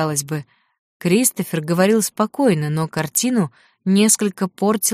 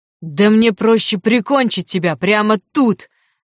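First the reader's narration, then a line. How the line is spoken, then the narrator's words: Shouting. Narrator (Russian): кричал Лю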